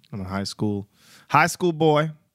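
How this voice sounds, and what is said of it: Briefly puts on an accent. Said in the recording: “Don't know why I did that accent.”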